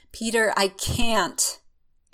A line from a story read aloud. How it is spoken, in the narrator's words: fighting its way to his mouth, but he manages to gasp out